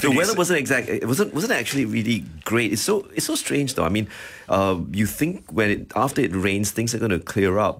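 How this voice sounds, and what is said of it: Voice sounds affected, slightly unwell. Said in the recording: “You can tell from my voice, the haze is getting to me.”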